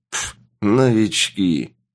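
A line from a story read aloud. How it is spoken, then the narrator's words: Sarcastic soldier. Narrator (Russian): язвительно прокомментировал один из бойцов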